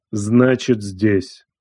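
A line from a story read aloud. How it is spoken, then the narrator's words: Cold statement. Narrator (Russian): холодно произнес старший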